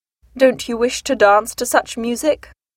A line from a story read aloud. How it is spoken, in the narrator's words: asked Darcy